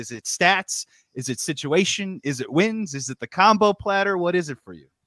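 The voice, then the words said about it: Imitates another person's voice. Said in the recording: “that was a good JD impersonation too”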